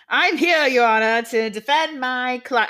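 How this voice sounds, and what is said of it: Put-on Southern lawyer accent. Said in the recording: “I don't know why I'm giving him like a Southern attorney accent. ... Why is he now your fucking Foghorn Leghorn?”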